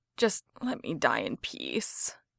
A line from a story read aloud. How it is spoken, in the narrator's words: Jensen moaned